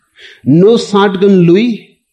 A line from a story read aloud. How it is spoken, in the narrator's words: wailed his wife